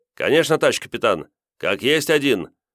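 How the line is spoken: Brisk report. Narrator (Russian): Бодро рапортовали капитану

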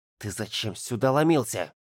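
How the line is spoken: Menacing whispered question. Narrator (Russian): страшным шепотом спросил Ярик

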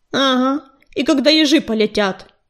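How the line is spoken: Grumbling. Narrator (Russian): пробурчал Белохвост

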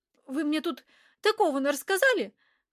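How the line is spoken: Exclaiming. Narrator (Russian): воскликнула

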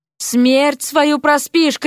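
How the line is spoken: Shouting. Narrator (Russian): кричала ему Вася

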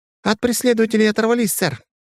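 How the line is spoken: Joyful. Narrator (Russian): радостно подхватываю я

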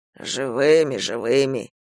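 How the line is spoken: Giant's displeased grumble. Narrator (Russian): недовольно проворчал гигант

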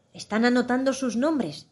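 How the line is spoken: Griffin's whispered reply. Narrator (Spanish): susurró el grifo como respuesta

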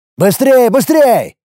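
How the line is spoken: Shout. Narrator (Russian): крикнул я

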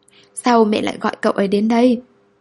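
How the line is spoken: Near-tearful question. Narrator (Vietnamese): Kỳ Thiện hỏi bằng giọng như sắp khóc

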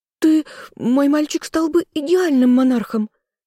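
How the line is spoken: Shrill squeal. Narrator (Russian): взвизгнула Маргретта

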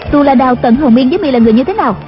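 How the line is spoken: Shouted question. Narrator (Vietnamese): Đạo cô quát hỏi

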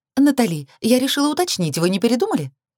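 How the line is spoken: Rapid chatter. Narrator (Russian): Протараторила Энджи, наш, а теперь лично мой риэлтор

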